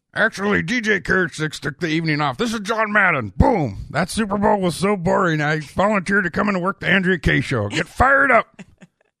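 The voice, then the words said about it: Imitates another person's voice. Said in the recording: “Good impersonation there. I'm only going to give it one thumb up”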